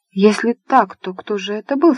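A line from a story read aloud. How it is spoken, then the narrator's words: Plain. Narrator (Russian): спросила маленькая брюнетка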